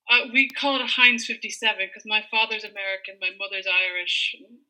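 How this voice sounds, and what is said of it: Mostly American accent, slight Irish twang. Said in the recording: “that does not sound like an Irish accent ... there definitely is a bit of an Irish twang there”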